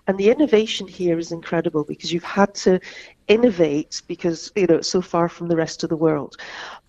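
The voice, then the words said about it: Non-New Zealand accent. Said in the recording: “you can probably tell from my accent, I'm fairly new arrival in New Zealand”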